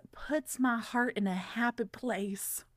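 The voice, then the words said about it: Reads in a weird put-on accent. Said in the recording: “I don't know why I just read that with a weird accent”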